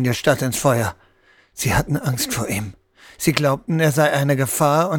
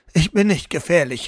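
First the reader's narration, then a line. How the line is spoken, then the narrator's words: Uncontrolled, slightly desperate cry. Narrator (German): rief er unkontrolliert und leicht verzweifelt aus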